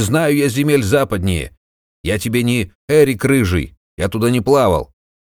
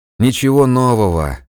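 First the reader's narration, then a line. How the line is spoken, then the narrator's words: Sigh. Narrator (Russian): вздохнул Жуга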